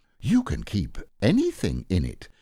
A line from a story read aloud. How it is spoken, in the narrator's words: said Pooh earnestly